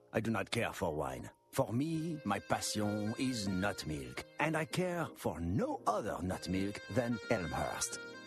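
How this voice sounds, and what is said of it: Showy foreign accent. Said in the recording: “my fantastic accent”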